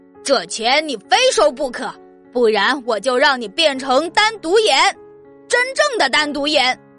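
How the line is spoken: Angry shouting. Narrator (Chinese): 猛拍着桌子叫喊

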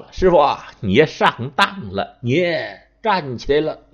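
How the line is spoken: Laughing. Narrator (Chinese): 孙膑笑了

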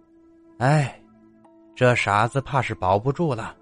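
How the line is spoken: Sighing. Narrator (Chinese): 入殓师傅叹了口气

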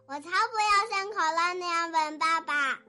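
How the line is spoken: Shouting bear cub. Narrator (Chinese): 熊宝宝叫道

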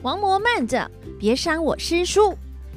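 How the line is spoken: Loud shout. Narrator (Chinese): 哪吒大叫

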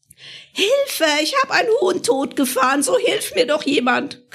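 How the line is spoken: Shrieking. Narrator (German): kreischte sie

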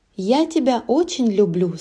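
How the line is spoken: Plain. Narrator (Russian): сказала она

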